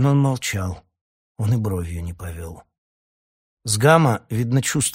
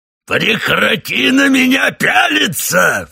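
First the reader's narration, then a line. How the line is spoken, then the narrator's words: Roared. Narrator (Russian): взревел он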